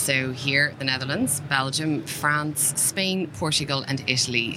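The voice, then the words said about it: Irish accent. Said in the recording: “my accent is Irish”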